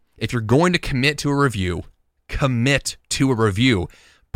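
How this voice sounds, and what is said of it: Loud, almost yelling delivery. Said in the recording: “I feel like I'm yelling at the microphone right now”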